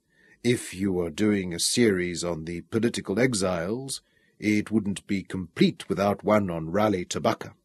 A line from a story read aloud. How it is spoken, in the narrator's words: Ramon said softly from the bed